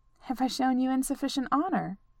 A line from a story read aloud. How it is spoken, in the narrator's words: She asked, dryly, swallowing her nerves